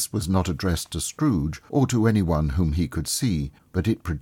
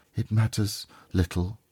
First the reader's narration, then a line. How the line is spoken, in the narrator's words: she said softly